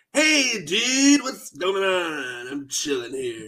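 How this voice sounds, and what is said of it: Stoned-sounding laid-back teen voice. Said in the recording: “He seems like he's high ... good impression of that”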